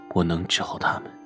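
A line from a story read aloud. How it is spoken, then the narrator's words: Murmuring. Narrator (Chinese): 喃喃道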